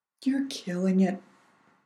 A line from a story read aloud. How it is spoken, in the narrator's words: Nonno Frankie said sadly